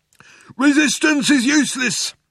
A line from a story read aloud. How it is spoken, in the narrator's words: shouted the Vogon guard back at him